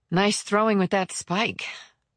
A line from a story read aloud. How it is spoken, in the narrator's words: she replied breathlessly